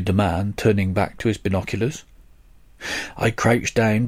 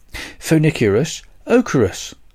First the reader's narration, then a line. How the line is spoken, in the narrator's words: said the chap excitedly